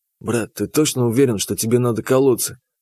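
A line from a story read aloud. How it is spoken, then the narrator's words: Whisper in ear. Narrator (Russian): Шепнул я ему на ухо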